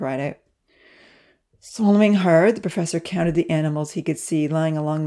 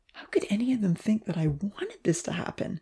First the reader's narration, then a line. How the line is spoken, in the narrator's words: He asked Evan quietly